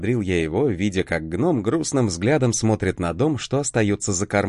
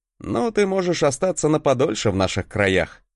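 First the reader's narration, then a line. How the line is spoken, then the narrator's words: Laughing. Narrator (Russian): хохотнул я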